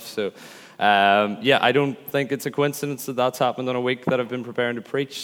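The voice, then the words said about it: Croaky, breaking, hoarse voice. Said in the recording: “I've been losing my voice ... I sound a little croaky and a little teenage as my voice kind of breaks”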